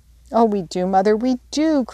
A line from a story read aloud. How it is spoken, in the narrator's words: cried the girls